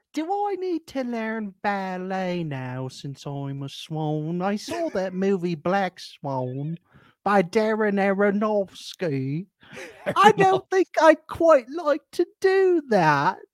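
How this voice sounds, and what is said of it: Put-on British accent. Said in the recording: “Do I sound British? ... Aronofsky is fun to say in a British accent.”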